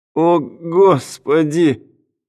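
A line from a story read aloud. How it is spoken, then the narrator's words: Loud moan. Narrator (Russian): громко простонал Брэдли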